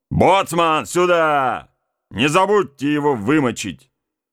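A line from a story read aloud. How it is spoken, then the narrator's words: Loud shout. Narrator (Russian): громко крикнул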